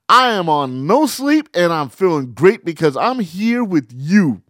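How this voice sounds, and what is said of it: Excited, hyped-up energetic voice. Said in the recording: “I'm so hyped you can hear it in my voice.”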